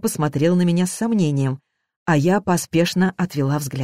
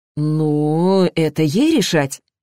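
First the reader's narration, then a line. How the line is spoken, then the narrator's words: Hesitant start. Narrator (Russian): неуверенно начал папа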